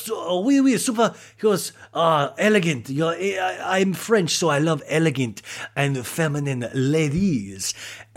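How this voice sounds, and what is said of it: Attempted French accent. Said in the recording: “Sorry, I can't do a French accent.”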